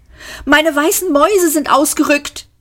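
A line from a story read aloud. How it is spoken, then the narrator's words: Call. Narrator (German): rief sie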